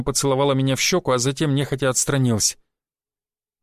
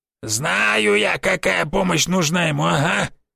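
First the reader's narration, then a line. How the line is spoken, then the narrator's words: Grumbling. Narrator (Russian): заворчал Никифорыч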